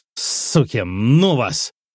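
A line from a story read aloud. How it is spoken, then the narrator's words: Barked. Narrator (Russian): рявкнув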